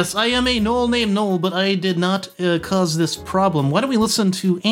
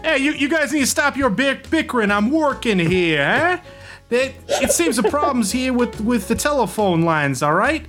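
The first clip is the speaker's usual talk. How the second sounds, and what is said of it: Put-on New York accent. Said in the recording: “his New York accent ... Sorry, I had to get in my New York accent.”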